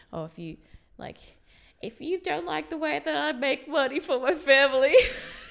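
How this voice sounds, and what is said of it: Imitates another person's voice. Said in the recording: “That was a really Elvis. Good impression ... I reckon you should get the voice acting. ... That was really good.”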